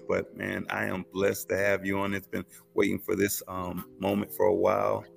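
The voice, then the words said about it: Tired, low-energy voice. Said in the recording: “A little tired. You can hear it in my voice. ... If I pause, I'm just a little tired, man. ... I'm exhausted.”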